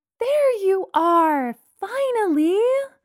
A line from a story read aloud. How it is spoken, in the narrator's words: shouted happily